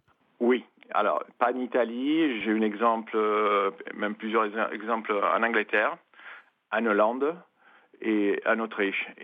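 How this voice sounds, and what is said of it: Italian accent speaking French. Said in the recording (French): “on l'entend par votre bel accent, italien”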